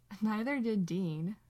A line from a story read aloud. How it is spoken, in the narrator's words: Sam laughs